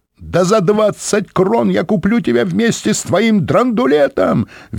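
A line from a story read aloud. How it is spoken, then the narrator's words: Shrieking. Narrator (Russian): визжали в ответ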